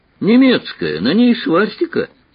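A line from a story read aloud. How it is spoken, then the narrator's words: Surprised exclamation. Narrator (Russian): Он удивленно воскликнул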